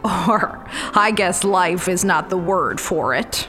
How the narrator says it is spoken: she chuckled

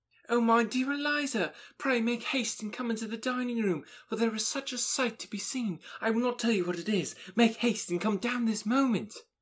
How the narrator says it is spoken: Maria, who, breathless with agitation, cried out

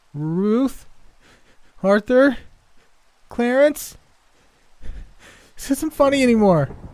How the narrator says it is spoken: Shakily, she called out

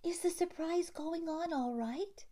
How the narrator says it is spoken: asked Effie anxiously

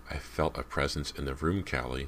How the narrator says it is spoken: she said, lowering her voice to a solemn whisper

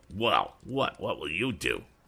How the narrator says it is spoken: demanded Andy, sneeringly

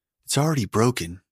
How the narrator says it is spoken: Kathleen Dennis said in a tight, strained voice

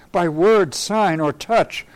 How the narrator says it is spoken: I cried in my mute heart

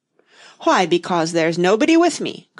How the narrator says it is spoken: cried Humpty Dumpty

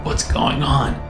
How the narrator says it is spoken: croaked

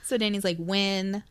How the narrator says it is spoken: his voice was slurring

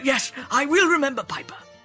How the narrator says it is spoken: the mayor replied

